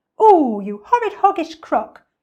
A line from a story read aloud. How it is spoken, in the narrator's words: cried Mugglewump